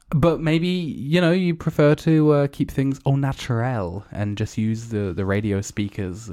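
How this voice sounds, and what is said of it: Usual voice. Nothing is said of it.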